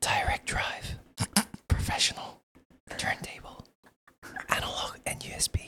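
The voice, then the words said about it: Whispering. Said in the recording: “when you whispered like that ... in that same voice”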